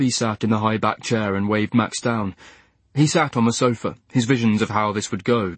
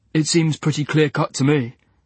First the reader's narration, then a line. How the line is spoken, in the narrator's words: said Max